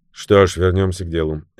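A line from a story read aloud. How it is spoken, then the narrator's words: Unruffled, composed tone. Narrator (Russian): невозмутимым тоном продолжил Мозгоровский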